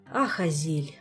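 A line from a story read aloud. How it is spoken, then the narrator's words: Touched sigh. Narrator (Russian): Пассионарио не удержался и растроганно вздохнул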